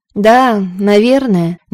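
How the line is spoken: Somewhat dejected reply. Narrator (Russian): несколько уныло ответил Ингеторо, который не кстати вспомнилось, какие подарки привозил ей отец

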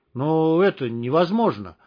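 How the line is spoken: Confused. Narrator (Russian): растерянно сказал Штык

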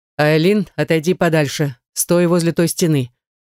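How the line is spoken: Stern order. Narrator (Russian): Наяр строго так приказал

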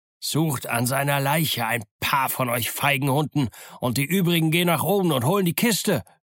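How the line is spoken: Shout. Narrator (German): rief er

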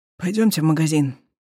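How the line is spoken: Hoarse, strained. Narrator (Russian): хрипло выдавил он

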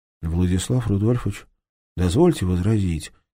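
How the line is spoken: Quiet but firm. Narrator (Russian): тихо, но твердо остановил его поручик

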